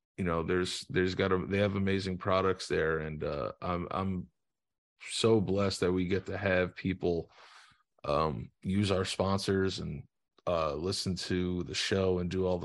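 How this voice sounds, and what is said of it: Sick-sounding voice. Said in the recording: “I'm sorry if I sound sick, but I am sick”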